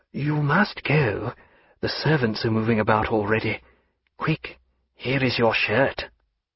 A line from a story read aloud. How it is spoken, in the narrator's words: saying in a low, urgent tone